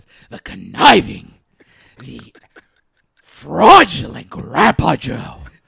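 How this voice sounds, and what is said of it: Vince McMahon impression. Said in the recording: “in a Vince McMahon voice”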